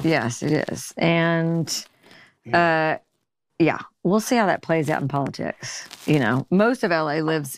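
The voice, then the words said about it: Country Missouri accent. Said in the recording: “you have that accent ... you still sound country”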